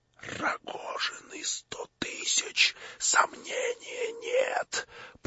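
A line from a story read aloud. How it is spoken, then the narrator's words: Muttering to himself. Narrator (Russian): пробормотал про себя Птицын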